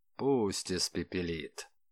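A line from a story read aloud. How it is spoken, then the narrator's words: Sad agreement. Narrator (Russian): грустно соглашался Калашников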